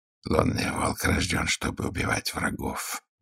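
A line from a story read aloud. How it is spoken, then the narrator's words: Quiet. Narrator (Russian): проговорил он негромко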